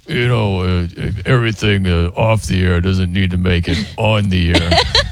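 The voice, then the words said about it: Imitates another person's voice. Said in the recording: “my Coop impression ... Yours was so good right there.”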